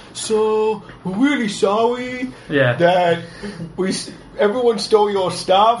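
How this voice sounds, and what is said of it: Put-on mock Japanese accent. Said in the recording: “What accent is that, by the way? ... Japanese ... I call it Pants Pier. It's official name of that accent.”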